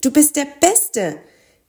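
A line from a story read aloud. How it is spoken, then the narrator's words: Calling out. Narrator (German): rief Mathilda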